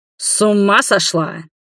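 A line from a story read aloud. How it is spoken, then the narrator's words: Thundering in her face. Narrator (Russian): прогремел ей в лицо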